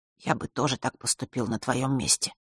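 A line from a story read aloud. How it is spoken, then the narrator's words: Quiet. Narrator (Russian): тихо добавил Ник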